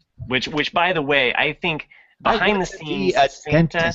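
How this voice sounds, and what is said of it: Usual voice. Nothing is said of it.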